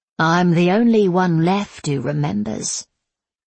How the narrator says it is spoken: Zula said solemnly

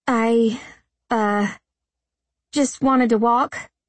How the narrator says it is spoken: I stammered

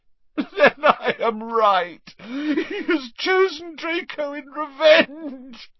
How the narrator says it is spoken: choked Narcissa

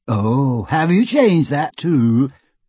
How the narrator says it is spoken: She asked brightly

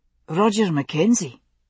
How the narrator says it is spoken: he said

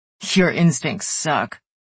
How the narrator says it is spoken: Easton snorted and told her

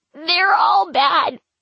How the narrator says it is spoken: he cries, hiccuping from his sobbing

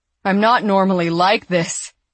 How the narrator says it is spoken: Ashley howled outside

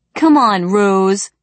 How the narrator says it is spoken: begged Sheen Reese

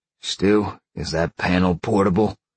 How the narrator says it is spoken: Sean growled

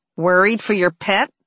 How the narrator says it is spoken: Nanny grumbled

